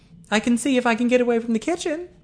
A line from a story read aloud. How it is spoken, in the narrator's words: said Eileen brightly